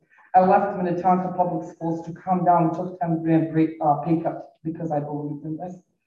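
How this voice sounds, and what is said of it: Non-native English accent. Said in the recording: “I have an accent. I wasn't born in America. I came to America as a refugee when I was 21 years old. ... I have an accent.”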